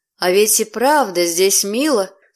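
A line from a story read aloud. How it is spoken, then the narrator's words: Plain. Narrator (Russian): сказал он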